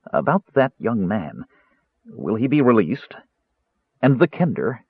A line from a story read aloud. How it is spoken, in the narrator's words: he said earnestly